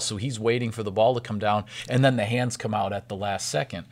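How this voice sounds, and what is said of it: Hoarse, strained voice. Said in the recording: “I'm losing my voice a little bit here”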